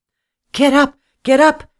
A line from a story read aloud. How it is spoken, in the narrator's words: she cried